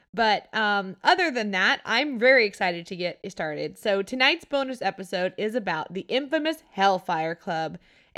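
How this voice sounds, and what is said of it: Stuffy, congested voice with odd pitch. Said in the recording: “I'm suffering from some horrible fall allergies right now. So my throat is killing me ... my throat really hurts ... I sound stuffy and strangely high-pitched at times, or kind of a deep voice sometimes”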